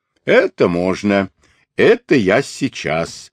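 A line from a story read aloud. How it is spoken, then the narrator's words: Cheerful reply. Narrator (Russian): весело отозвался Борчу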